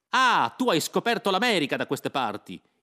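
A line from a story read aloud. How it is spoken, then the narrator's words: Shouting. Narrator (Italian): gridai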